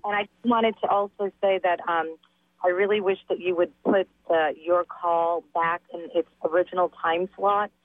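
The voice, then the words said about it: Voice affected by a cold. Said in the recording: “Excuse my voice. I have a little bit of a cold.”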